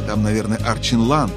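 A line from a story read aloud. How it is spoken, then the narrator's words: Plain. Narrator (Russian): спросила Поля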